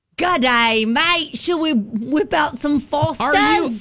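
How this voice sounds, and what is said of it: Put-on British-Australian hybrid accent. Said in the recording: “Are you speaking in a British accent? ... It's like a hybrid.”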